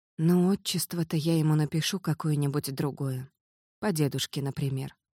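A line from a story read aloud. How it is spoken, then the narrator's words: Whispering. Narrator (Russian): прошептала вслед Стася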